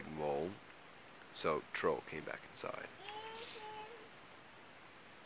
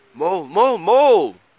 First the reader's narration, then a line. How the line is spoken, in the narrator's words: cried Troll